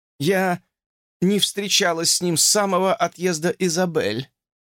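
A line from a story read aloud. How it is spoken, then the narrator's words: Tired, sad tone. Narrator (Russian): устало ответила Фанни печальным тоном, который уже вошел у нее в привычку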